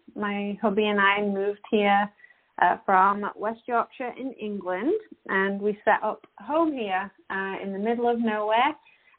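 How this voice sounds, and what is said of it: English West Yorkshire accent. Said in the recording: “from my accent, you can tell that I am not an Albertan”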